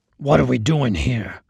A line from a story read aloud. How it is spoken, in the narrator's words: I grunted at Kedda